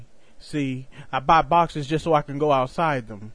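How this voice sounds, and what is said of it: Southern American accent. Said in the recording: “the accent of my southern tongue”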